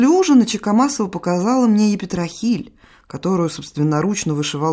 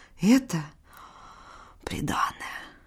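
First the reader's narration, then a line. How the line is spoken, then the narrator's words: Whispered, mother. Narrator (Russian): шепнула мать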